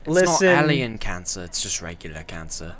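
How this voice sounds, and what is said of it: Put-on British accent. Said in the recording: “Did you just switch accents another time? ... You didn't even have a British accent”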